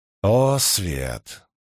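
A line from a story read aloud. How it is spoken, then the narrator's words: Growling. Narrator (Russian): прорычал Перин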